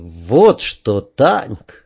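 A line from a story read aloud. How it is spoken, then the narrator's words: Thoughtful. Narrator (Russian): задумчиво сказал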